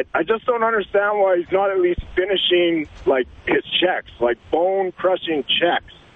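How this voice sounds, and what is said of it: Hoarse, strained voice. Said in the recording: “lost my voice from cheering”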